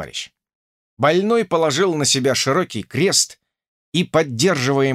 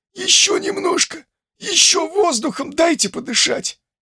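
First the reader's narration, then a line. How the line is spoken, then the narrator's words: Hoarse whisper. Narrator (Russian): сипло прошептал он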